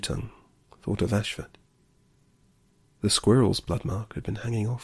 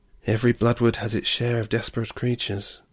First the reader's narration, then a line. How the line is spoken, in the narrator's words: sighed the grey-headed fox